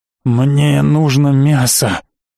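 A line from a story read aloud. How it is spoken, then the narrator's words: Desperate rasping. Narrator (Russian): прохрипел он с видом наркомана под ломкой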